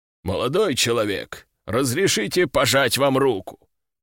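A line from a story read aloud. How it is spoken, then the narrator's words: Deep bass voice. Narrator (Russian): пробасил он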